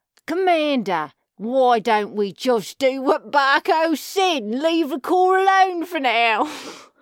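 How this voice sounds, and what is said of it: Hard-to-place put-on accent. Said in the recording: “They need more accents ... What kind of accent was that? I'm not pinning it down. It's space accent.”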